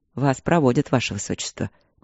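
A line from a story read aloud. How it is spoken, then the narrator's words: Soft. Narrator (Russian): мягко сказал Игорь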